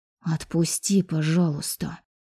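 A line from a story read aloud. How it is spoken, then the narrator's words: Hiss. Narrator (Russian): прошипела я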